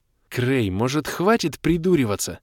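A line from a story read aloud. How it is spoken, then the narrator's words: Angry hiss. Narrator (Russian): Зло прошипела Кэлен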